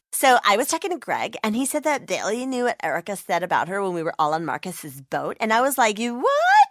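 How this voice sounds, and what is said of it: Reality TV star voice. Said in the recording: “my impression of a reality TV star”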